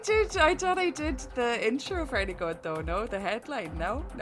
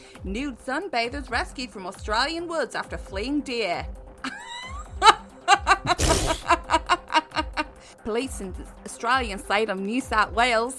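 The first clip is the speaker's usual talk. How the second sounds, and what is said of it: Exaggerated Australian accent. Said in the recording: “we've had this problem with Australian accents with you in the past. Can you please just say it in a normal accent?”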